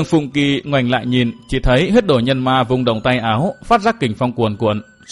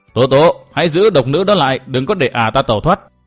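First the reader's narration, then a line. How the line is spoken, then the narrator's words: Loud. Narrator (Vietnamese): huyết đồ nhân ma lớn tiếng nói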